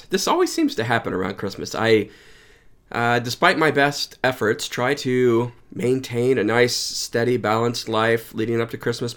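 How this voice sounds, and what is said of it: Voice sounds off, unwell. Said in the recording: “my voice isn't quite right, and I really haven't been feeling well the last couple days”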